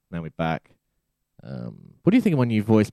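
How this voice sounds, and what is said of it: Low-pitched vocal fry voice. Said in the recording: “It's quite sexy. ... the sort of low sort of gut. ... the sort of vocal fry. ... I'll pitch you back up.”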